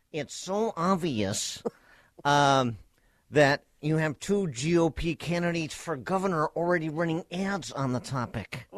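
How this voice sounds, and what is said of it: Dana Carvey's Johnny Carson impression. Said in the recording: “my impersonation of Dana Carvey impersonating Johnny Carson”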